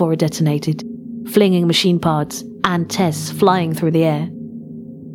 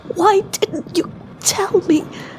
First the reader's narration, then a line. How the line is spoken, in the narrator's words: She spat through the blood and the bile